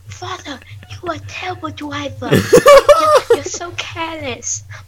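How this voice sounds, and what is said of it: Screaming impression of a brother. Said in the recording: “I'm doing it in his impression. ... And he was like screaming.”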